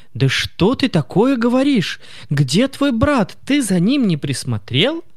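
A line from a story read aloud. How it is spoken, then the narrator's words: Shout. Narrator (Russian): закричала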